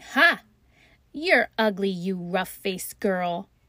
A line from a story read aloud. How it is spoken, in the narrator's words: those two older sisters laughed after saying